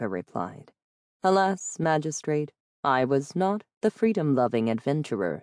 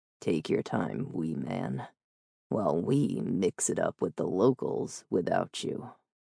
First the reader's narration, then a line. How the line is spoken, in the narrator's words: Red said softly